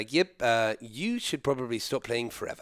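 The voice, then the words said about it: Imitated South African accent. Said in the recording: “He was a South African rugby player... could be an actor, dude... That was a good accent.”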